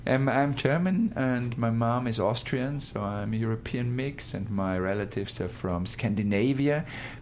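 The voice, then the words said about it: European accent. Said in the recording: “you have a beautiful accent, obvious. You are from Austria?”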